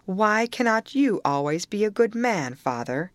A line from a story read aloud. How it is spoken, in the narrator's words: laughed and answered